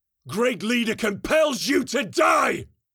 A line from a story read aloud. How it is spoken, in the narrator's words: Captain Blake roared from external speakers